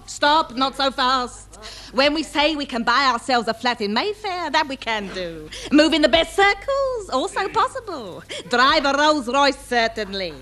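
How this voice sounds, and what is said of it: Cockney accent. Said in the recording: “lose my accent, never. Once a Cockney, always a Cockney.”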